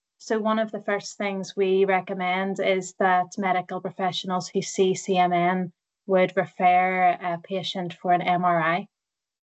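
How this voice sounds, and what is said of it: Northern Irish accent. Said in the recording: “going by my accent, we've got two interesting accents ... I'm from Northern Ireland”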